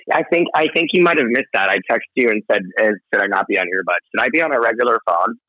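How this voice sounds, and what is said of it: Slightly hoarse voice. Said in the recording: “I'm a little hoarse because I've been doing a lot of talking these days.”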